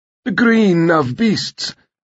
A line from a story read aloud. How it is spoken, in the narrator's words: her husband's wheezing voice declared